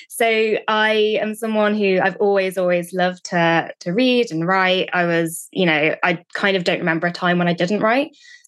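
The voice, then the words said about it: British accent. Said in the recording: “I'm from the UK, as you can probably tell from my accent.”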